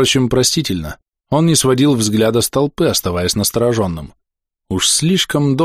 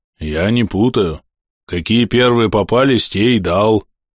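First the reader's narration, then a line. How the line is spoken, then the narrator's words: Deep bass voice. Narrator (Russian): пробасил Андрюха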